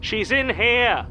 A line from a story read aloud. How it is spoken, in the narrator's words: Callum Brody shouts, loud enough for the whole street to hear